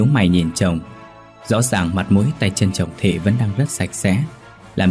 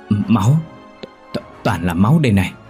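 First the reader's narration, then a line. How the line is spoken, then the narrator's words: Stammering. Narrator (Vietnamese): Thằng Khang lắp bắp nói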